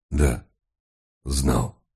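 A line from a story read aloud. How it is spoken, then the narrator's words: Hoarse. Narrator (Russian): ответил комиссар хриплым голосом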